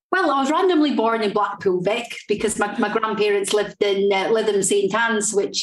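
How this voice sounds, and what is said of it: Strong regional accent. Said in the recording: “your accent's quite a strong accent.”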